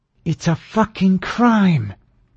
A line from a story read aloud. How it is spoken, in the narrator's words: she said through her teeth